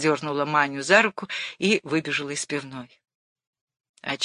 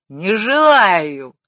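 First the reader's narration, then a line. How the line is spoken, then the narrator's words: Wild scream. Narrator (Russian): дико крикнула она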